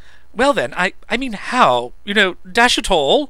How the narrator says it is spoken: he added for reasons of his own, and urgently, as if he must

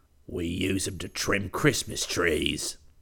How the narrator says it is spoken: growled

